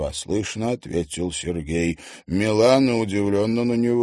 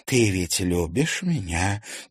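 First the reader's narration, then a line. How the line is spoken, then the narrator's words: Quiet question. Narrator (Russian): тихо спросила она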